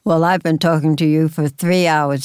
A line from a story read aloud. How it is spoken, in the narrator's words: said, chuckling